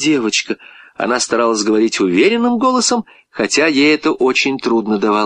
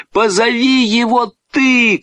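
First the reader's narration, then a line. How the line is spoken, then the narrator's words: Shouted. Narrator (Russian): крикнул Петя девочке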